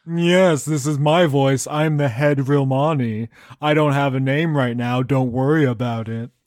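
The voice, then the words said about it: Snooty rich frat-boy character voice. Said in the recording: “It sounds like the frat boy accent again. ... that's my father voice ... No, richer. ... This is like trust fund kids. ... they're snootier.”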